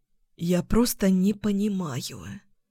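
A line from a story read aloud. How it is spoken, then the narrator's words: Hoarse, dropped words. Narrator (Russian): выронила хрипло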